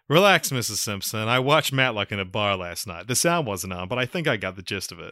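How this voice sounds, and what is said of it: Phil Hartman impression. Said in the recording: “That's a good Phil Hartman impression ... if that wasn't a perfect Phil Hartman impression, it was lost in the recording.”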